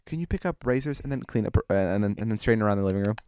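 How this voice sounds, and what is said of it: Rushed, very fast speech. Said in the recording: “I say it quickly ... I'll say it really quick”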